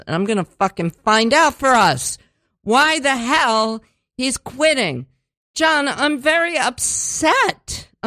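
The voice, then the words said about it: Yelling, upset voice. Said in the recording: “sorry I'm yelling,”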